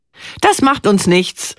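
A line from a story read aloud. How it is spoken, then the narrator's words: Calling out. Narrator (German): ruft sie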